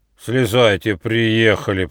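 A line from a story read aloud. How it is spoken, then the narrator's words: Booming drone. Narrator (Russian): прогудел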